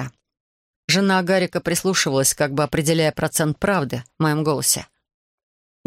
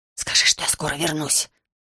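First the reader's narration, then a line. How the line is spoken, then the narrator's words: Whisper. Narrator (Russian): прошептал Гарик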